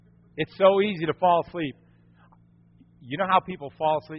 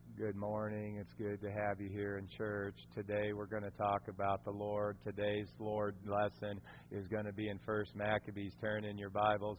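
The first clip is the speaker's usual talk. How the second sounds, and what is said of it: Flat monotone droning delivery. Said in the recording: “monotone”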